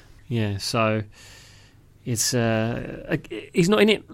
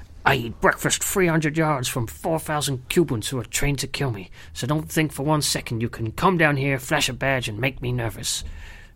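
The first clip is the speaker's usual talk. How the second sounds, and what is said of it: Imitates another person's voice. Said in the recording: “You asked me to do an impersonation. I'll do my best”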